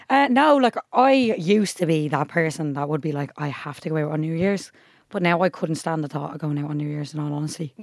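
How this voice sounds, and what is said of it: Hoarse, strained, nearly lost voice. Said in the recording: “my voice is still gone in this episode”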